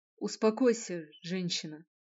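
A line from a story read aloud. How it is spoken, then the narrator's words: Stern. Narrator (Russian): Норк обратился строго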